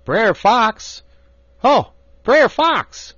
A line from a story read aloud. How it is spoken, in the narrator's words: Brer Rabbit holler out